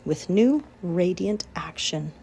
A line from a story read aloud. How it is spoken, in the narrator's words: repeated Charlotte slowly